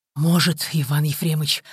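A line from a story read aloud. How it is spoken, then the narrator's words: Hoarse exhaled words. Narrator (Russian): хрипло выдохнул Прокофьев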